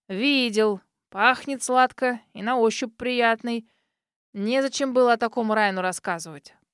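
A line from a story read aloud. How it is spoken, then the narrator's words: Old man grumbling. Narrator (Russian): проворчал старик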